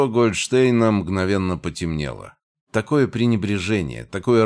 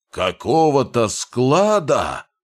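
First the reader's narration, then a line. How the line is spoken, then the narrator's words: Echoing roar. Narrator (Russian): взревел он, и его голос эхом отозвался от древних стен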